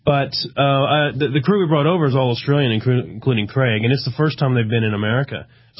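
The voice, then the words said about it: Texan American accent with Australian blend. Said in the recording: “I'm American, as you can hear from my voice. I'm actually a Texan, but I've lived in Australia for about 10 years. ... You picked up part of the accent. ... I've got some strange hybrid, which no one understands now.”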